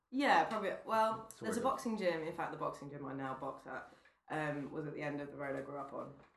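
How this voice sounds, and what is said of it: London accent. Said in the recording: “London are born and bred, can't you tell from this honey accent?”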